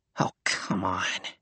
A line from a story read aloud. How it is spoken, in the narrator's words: he muttered